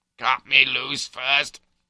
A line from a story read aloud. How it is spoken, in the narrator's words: croaks I